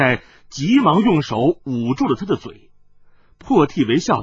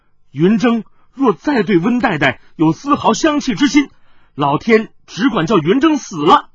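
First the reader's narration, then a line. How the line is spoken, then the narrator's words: Anxious flustered shouting. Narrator (Chinese): 云峥面孔急得通红，大叫道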